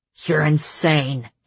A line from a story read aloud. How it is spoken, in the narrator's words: Cassian hissed